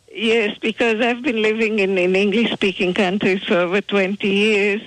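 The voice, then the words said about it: Israeli-accented English. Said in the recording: “I have an Israeli accent”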